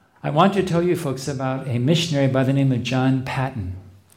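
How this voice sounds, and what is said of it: Speaks with a noticeable accent. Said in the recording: “my accent will not get in the way of people understanding”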